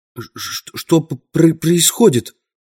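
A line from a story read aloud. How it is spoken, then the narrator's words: Stammering mutter. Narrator (Russian): запинаясь, пробормотал он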